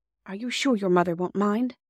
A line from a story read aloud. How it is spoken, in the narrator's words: whispered Jim